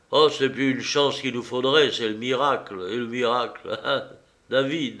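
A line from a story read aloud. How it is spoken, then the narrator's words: Grumbling. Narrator (French): grommela-t-il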